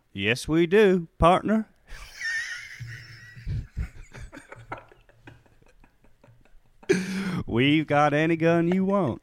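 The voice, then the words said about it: Put-on Dallas Texan accent. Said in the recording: “Do your best Dallas accent.”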